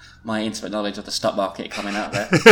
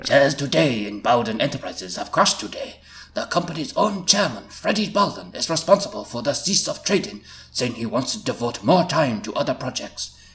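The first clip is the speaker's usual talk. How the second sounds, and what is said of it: Put-on Japanese accent. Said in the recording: “to do this Japanese voice?”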